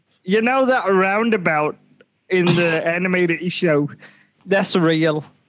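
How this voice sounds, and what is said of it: Put-on Australian accent. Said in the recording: “talks in this accent ... Switching in and out of Australian now.”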